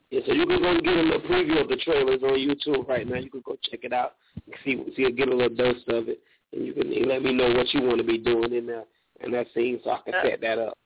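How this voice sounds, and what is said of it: Smooth accent. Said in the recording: “I love your accent. Like, definitely smooth.”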